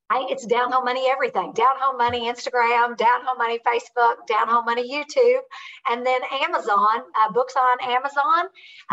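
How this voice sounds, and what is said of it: Southern American accent. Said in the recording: “if you like uh, Southern accent, get my book”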